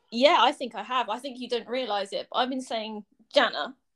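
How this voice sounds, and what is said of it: English accent. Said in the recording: “my funny English accent”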